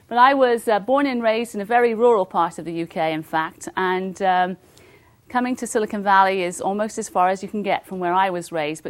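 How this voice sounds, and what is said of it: British accent, slight Australian tinge. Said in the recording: “I come from the UK. I think you can perhaps tell. Many people here think I come from Australia or New Zealand ... I may be picking up a little bit of that accent.”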